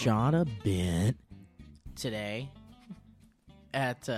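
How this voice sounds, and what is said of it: Usual voice. Nothing is said of it.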